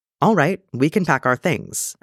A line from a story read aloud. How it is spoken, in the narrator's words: Obi-Wan said